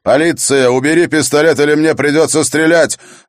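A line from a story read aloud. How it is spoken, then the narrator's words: Very loud shout. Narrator (Russian): кричать так громко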